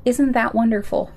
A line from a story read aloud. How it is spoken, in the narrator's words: calmly added